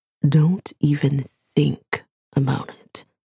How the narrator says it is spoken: warns softly

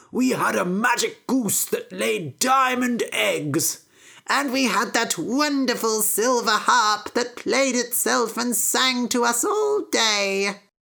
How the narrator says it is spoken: cried Jack's father

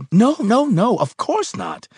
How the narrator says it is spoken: he cried

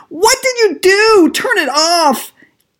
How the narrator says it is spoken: Jenny shrieked

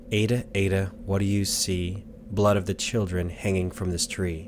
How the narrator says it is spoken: Heather softly says

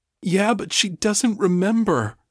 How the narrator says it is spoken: Chase said miserably

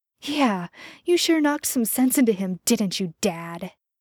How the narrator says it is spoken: Dean spat

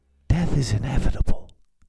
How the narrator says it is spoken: lady whispered, her voice like the scraping of glass on stone

